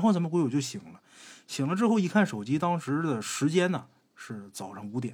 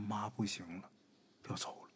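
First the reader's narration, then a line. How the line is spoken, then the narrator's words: Weak sighing. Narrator (Chinese): 他妈呀一声叹气，说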